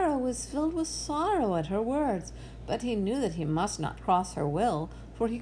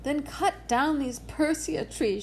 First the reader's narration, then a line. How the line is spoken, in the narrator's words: she cried